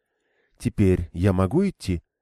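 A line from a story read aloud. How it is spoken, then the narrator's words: Calm question. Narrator (Russian): наконец спросила Игвейн, спокойно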